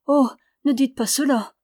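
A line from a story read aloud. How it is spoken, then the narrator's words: Exclaiming. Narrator (French): s'écria Ramona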